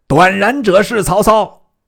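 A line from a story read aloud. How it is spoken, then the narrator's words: Shouted command. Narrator (Chinese): 超遂令人叫拿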